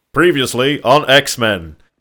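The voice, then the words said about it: Dramatic TV narrator voice. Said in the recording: “do the voice ... That's a good voice.”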